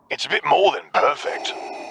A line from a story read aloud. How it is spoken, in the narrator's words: Boomer said loudly